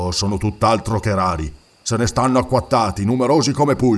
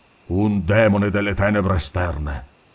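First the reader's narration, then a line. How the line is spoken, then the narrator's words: Grumbled. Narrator (Italian): brontolò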